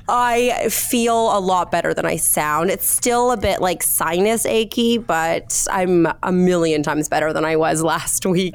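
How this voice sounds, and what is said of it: Congested, sick-sounding voice. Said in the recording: “I'm just recovering from a cold, so please excuse my voice ... tell me that you feel better than you sound”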